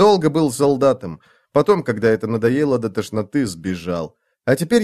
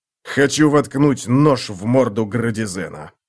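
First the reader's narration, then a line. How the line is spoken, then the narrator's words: Angry growl. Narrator (Russian): прорычал штырь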